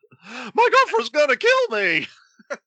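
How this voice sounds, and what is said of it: Squeaky Simpsons teen voice impression. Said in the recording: “squeaky voice teen from The Simpsons”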